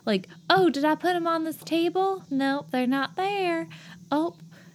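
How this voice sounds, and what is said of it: Put-on Southern belle accent. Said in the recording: “southern accent ... sounds like a southern belle”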